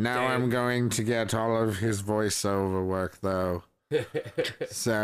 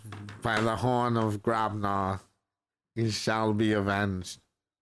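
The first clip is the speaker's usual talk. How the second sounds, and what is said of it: Good Alan Rickman impression. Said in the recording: “That was really good. It was a really good impression.”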